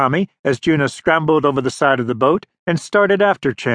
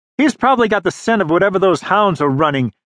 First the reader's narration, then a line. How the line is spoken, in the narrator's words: Juno shouted back over his shoulder